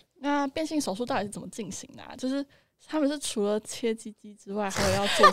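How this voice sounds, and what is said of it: Suddenly quiet, lowered voice. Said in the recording (Chinese): “你为什么突然这么小声啊？... 自动小音？”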